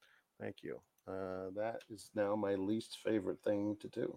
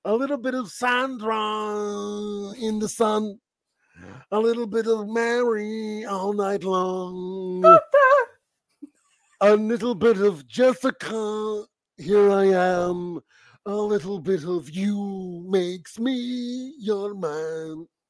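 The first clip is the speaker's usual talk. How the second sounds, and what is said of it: Imitates another person's singing voice. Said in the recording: “my new favorite impression of yours”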